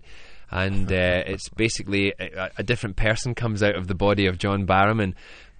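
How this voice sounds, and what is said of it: Scottish accent. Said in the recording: “this is the way I speak when I'm with my mum and dad, which is with the Scottish accent”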